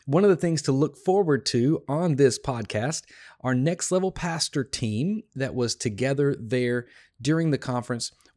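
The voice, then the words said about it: Tired, hoarse voice. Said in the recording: “I am a little bit tired and my voice is a little bit gone”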